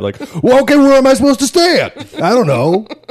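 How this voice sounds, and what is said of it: Put-on New York accent. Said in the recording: “He sounds like a New York guy already... Not a good impression.”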